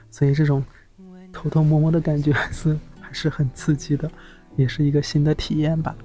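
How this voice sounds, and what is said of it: Speaking quietly, hushed voice. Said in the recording (Chinese): “我小声的”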